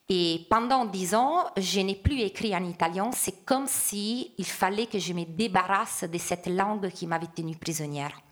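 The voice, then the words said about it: Strong Italian accent speaking French. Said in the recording (French): “j'assume et je revendique presque mon accent très fort quand je parle en français ... effacer toute trace de la langue maternelle ... mon accent est encore plus fort”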